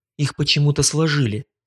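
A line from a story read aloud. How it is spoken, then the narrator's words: Muttered under breath. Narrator (Russian): полголоса пробормотала Вардени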